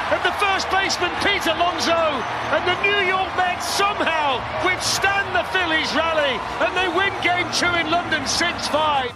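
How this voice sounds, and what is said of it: British accent, sports play-by-play. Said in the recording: “we get a British accent across the pond. Darren Fletcher with the call there on TNT.”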